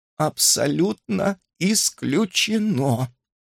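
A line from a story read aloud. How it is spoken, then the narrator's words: Strained, forced out. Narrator (Russian): выдавила из себя Адель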